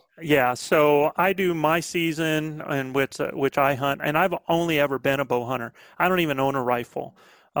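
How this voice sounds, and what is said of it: Southern American accent. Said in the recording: “this Southern accent I'm picking up on”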